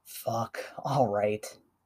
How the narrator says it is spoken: Aizawa groans

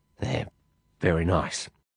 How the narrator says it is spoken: I muttered

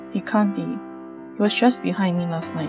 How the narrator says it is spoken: Nina murmured

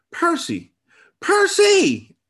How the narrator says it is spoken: screeched out

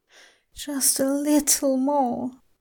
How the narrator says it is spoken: he moans to himself

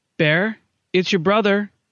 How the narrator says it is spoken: she called out after a few minutes of chit-chat

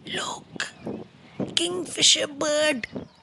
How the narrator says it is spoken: loudly whisper

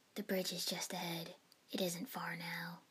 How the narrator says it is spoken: the boatman murmured, voice barely carrying

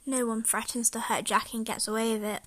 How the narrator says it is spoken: I mumbled darkly

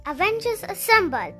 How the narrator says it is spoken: Captain America shouted

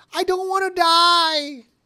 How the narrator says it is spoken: screaming

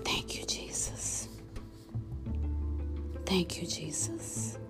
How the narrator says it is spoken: I began to whisper

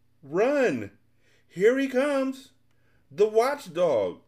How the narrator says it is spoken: Great shouts filled the air as the Lethargians scattered

